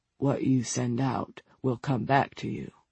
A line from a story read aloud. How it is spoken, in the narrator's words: had whispered in a thick voice